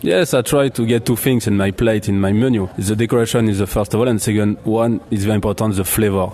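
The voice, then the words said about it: Slight French accent. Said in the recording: “that is a bit of a French accent”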